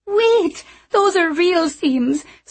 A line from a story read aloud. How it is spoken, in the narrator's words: squealed one of the other girls